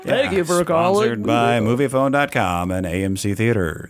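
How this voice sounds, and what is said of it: Impression of the Movie Phone announcer. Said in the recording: “And the guy's voice is, thank you for calling Movie Phone. ... I told you I used to do an impression of it.”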